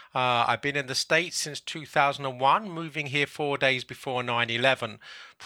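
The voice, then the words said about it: English London accent. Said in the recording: “as my accent may betray... I was born in England, in London.”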